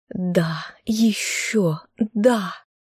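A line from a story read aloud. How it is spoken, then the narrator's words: Moaning. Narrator (Russian): стонала женщина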